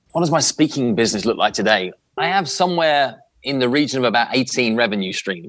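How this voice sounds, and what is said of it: Speaks with a distinct accent. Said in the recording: “the dude has a sexy accent”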